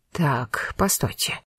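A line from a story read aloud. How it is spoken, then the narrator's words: Excited muttering. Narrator (Russian): возбужденно забормотал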